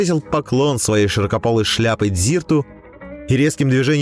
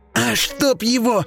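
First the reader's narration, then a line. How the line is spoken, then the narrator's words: Growl. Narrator (Russian): рыкнула Катебри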